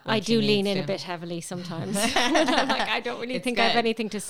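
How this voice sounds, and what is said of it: Irish accent. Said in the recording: “She really gets away with that accent... she hams it up... out of Ireland for a long time... you haven't lost that accent”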